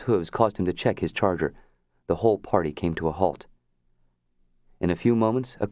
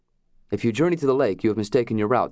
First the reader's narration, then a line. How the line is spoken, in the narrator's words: said Hayward